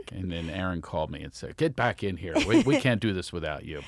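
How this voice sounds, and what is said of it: Philadelphia accent. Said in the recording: “I have a Philadelphia accent and Siri does not understand me ... I can't stand the Philadelphia accent”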